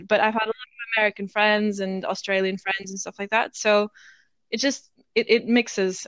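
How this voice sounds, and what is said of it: Mixed international English accent. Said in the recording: “my accent's funny ... mainly my accent comes from studying at an international school. It's that whole international English kind of thing.”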